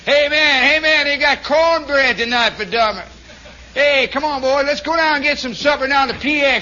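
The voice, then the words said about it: Imitated Southern US accent. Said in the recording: “You never had any idea how many Southern accents there were. ... I can speak the dialect”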